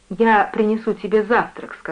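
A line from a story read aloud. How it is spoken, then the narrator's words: Plain. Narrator (Russian): сказала мать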